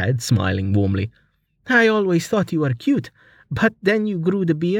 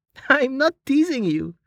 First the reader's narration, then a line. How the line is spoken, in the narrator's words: Amelia said, fighting back her laughter